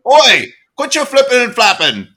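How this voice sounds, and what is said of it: Weak fake British accent. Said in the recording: “Oh, it's all gosh. In the oi. The rest of it, I have no British accent. I can't even fake it ... Dave's accent”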